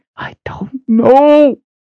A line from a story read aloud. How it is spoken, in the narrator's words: she cried through gritted teeth